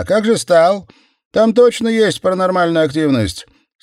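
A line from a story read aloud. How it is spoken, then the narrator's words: Distant shout. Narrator (Russian): выкрикнул с предпоследнего ряда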